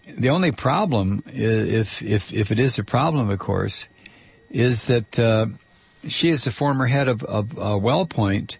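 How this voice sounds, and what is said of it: Strained, failing voice. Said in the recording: “I'm losing my voice. I just absolutely am losing my voice ... take calls when your voice is failing.”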